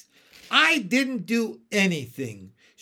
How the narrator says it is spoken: said indignantly

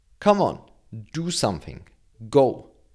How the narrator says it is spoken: the nurse told him in a strict tone

